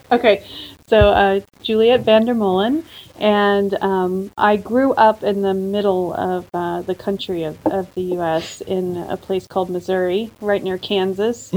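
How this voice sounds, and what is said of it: American accent. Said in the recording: “you've got an international accent, haven't you? ... which part of America you originally came from”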